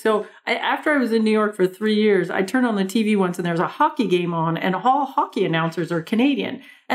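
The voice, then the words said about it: Strong Canadian accent. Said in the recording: “we do sound a lot like people from Minnesota. I have this big Canadian accent. Like, it's big. It's big.”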